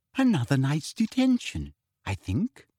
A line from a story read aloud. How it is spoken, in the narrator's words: she said softly